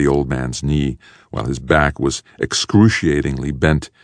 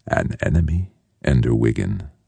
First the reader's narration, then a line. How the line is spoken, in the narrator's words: whispered the old man